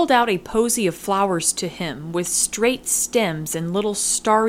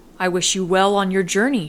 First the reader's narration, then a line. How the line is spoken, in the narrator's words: she said